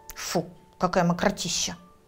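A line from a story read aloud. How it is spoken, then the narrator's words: Dumpling snorting. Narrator (Russian): фыркнул вареник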